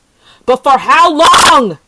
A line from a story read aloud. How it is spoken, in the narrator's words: he yelled to her